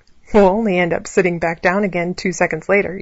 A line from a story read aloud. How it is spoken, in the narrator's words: said, as he continued to laugh